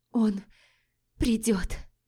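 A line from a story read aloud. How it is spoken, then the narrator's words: Hoarse wheeze. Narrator (Russian): просипела Лорея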